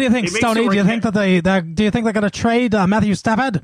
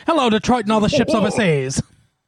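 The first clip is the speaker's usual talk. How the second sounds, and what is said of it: Mid-Atlantic announcer voice. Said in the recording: “had someone professionally train him for like, mm-hmm. you know, the Mid-Atlantic or whatever the was accent ... Yes, kind of, exactly, yes.”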